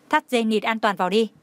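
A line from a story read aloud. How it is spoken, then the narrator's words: Cold. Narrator (Vietnamese): lạnh lùng, nói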